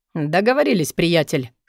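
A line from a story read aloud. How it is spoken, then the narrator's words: Smirking snort. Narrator (Russian): хмыкнул Дэн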